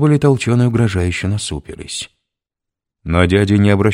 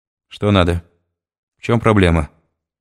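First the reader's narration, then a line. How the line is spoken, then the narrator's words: Dry question. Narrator (Russian): сухо спросил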